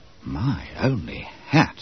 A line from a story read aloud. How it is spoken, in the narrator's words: Bob Cherry murmured to Wharton